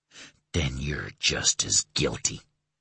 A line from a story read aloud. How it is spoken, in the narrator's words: Stephen hissed